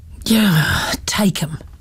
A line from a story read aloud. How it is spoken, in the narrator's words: the man had sighed